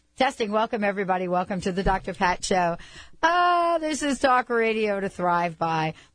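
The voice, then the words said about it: Slightly squeaky voice. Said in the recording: “My voice is a little squeaky because I did an interview with Dan Millman today. And I guess I got all squeaked up.”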